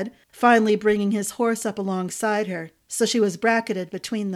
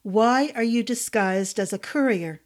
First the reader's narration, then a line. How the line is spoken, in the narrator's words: Randall said